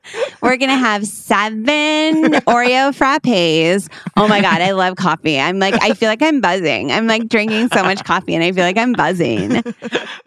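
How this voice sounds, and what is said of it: Impression of a girl ordering coffee. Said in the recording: “That's my impression of the girl.”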